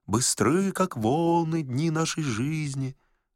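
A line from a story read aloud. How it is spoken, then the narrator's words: Quiet uneasy singing. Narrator (Russian): томимые неясным предчувствием, они тихонько затянули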